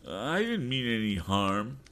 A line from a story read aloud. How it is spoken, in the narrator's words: whined Sam